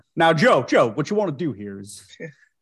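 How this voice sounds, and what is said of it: Exaggerated old Southern gentleman voice. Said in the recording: “Why does he sound so Southern? ... Why does he sound like Foghorn Leghorn? ... You made him an old Southern gentleman”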